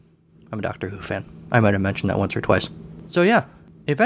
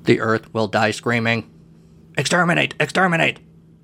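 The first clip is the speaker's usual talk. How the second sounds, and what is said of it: Robotic Dalek voice. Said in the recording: “let me do a Dalek voice.”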